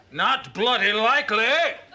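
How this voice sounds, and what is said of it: Very bad put-on Cockney accent. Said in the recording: “That's the worst Cockney accent I ever heard in my life. ... that was truly appalling”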